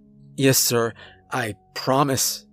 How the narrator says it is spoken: I stuttered out, breathing hard

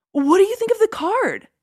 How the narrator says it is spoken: he asked eagerly

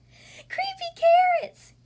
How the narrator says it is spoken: shouted

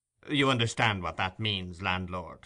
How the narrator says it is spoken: said the stranger dryly

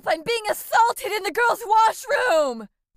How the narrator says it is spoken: He screamed as loud as he could

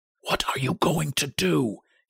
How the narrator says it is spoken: he whispered hoarsely

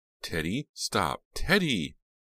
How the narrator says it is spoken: Jade's desperate cries

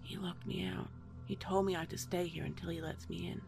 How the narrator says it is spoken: saying really softly

